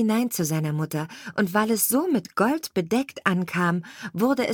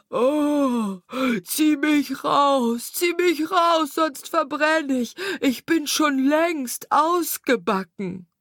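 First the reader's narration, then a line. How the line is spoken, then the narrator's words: Bread crying out. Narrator (German): schrie das Brot wieder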